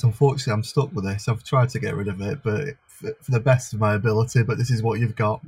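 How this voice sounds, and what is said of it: Northern Lancashire accent. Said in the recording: “a bona fide Lancastrian who doesn't just have a Northern accent”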